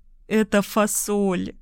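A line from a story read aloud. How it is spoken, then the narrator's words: Smiling through tears. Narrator (Russian): улыбнулась я сквозь слезы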